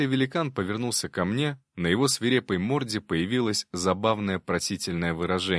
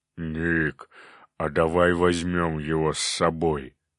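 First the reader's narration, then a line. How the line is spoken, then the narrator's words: Surprised grunt. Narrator (Russian): Я удивленно хмыкнул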